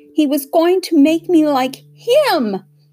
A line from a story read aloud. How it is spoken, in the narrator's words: screamed Hester